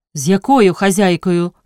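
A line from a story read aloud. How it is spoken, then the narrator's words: Stern question. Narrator (Ukrainian): суворо спитала дячиха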